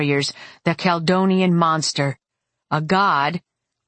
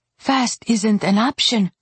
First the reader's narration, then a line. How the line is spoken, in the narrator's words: Christopher answered, his voice detached